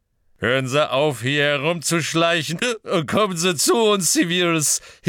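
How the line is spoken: Cheerful hiccuping. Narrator (German): hickste Slughorn fröhlich

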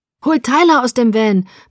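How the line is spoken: Yelling. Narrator (German): brüllte ein anderer

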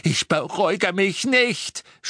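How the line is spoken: Woman screaming. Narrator (German): schrie sie

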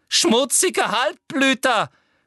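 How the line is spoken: Shout. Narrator (German): schrie Umbridge

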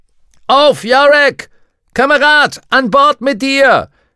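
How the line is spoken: Shouting. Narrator (German): schrie Lee Scoresby

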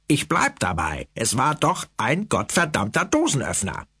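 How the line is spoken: Growled from below. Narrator (German): knurrte Blaubart von unten

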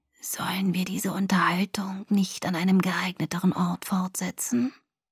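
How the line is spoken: Soft threatening whisper. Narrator (German): flüsterte eine sanfte Stimme drohend

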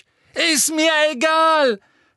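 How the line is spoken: Shouting at someone. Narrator (German): schrie Harry sie an

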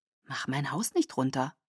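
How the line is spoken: Whisper. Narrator (German): flüsterte zu

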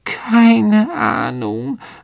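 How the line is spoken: Muffled voice. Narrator (German): sagte Myrte mit gedämpfter Stimme

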